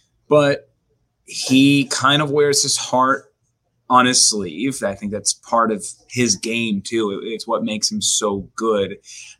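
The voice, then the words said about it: Temporarily worn-out, damaged voice. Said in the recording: “let me apologize for my voice. Cabo took it. It'll be back in a couple of days. So, you know, you're going to have to deal with this for a little bit.”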